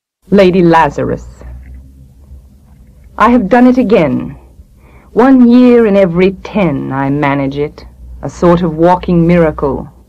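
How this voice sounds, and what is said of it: Sonorous Massachusetts accent. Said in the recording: “her sonorous Massachusetts accent”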